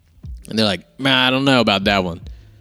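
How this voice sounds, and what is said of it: Put-on Southern US accent. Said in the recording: “I just did a southern accent.”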